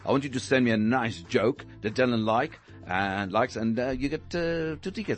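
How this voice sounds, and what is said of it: Noticeable accent. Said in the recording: “I like your accent. Is amazing.”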